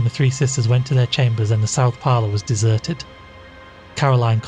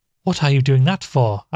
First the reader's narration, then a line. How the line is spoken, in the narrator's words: asked Caroline harshly